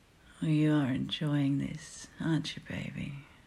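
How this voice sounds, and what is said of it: Sexy whispering voice. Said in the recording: “My sexy voice whispering in ear like this.”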